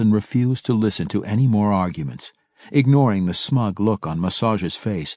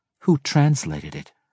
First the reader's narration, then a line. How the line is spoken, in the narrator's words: Massage replied calmly